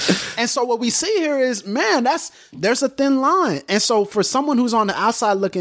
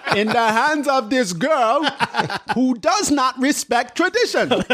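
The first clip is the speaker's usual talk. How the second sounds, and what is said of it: Impression of M'Baku's voice. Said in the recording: “M'Baku even says that ... Do the voice.”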